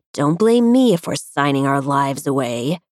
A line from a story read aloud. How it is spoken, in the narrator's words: he growled